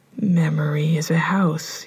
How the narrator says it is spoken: he whispered

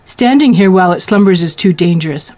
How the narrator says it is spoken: Malkin snapped

